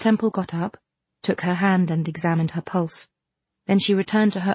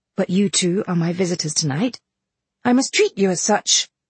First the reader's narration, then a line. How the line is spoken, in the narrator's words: Then rousing herself, she said cheerfully